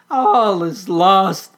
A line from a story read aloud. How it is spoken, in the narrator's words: they cried